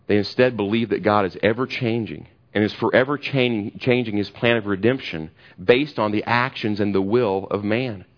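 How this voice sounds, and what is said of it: Kentucky accent. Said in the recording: “you think I have an accent. Imagine my brother over there with a worse Kentucky accent than I have”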